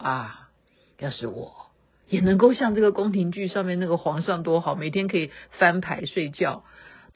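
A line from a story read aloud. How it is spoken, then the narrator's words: Wistful sigh. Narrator (Chinese): 老公感叹说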